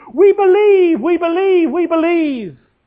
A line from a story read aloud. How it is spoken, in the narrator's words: the crowd all raised their arms and they shouted